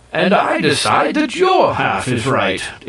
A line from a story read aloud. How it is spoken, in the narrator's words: exclaimed the Ki